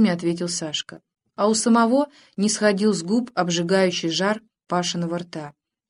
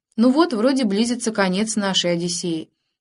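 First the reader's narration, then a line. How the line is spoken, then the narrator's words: Plain. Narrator (Russian): сказал лейтенант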